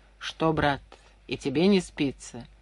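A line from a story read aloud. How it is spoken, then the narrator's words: Quiet question. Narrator (Russian): Иван Павлович тихо спрашивал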